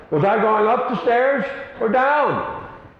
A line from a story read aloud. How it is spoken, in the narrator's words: she yells out